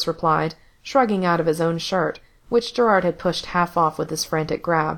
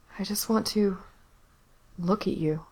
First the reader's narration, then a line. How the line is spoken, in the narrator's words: Gerard murmured